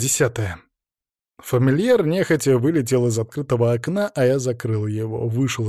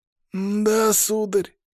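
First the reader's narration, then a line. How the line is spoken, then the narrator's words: Pleased drunken breathy voice. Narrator (Russian): выдохнул он в винные пары, довольно скаля желтые зубы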